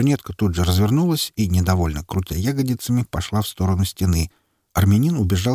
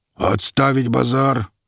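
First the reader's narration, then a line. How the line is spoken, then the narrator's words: Booming. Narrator (Russian): прогудел капитан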